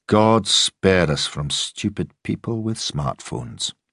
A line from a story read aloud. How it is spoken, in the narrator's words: Mallory muttered